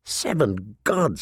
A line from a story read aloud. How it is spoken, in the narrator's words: he murmured